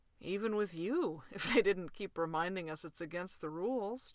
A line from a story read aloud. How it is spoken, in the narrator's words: John said lazily